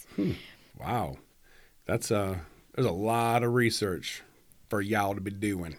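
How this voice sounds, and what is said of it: Put-on Southern American accent. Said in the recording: “all Southern now. ... My Southern accent going.”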